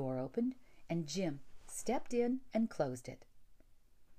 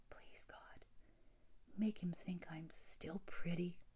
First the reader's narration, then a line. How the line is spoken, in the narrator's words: she whispered